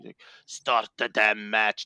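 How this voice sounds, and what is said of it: Badly done put-on accent. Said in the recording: “That's a terrible accent. ... Oh, that was horrendous.”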